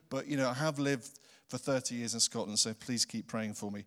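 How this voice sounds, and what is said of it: English accent. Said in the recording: “I haven't been able to get rid of this accent. ... I was born in England ... Lord, give me a beautiful Highland accent, but it hasn't happened.”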